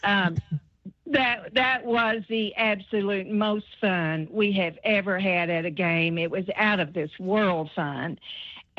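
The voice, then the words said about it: Kentucky regional accent. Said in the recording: “I love your Corbin accent”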